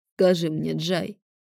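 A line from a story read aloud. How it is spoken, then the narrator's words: Hoarse question. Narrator (Russian): хрипло поинтересовался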